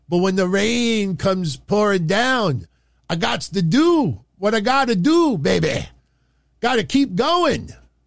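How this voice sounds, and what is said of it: Dusty Rhodes impression. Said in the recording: “my Dusty Rhodes impersonation”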